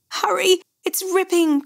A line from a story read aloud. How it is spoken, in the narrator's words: Chris pleaded